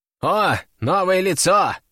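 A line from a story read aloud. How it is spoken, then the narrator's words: Snort. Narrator (Russian): хмыкнул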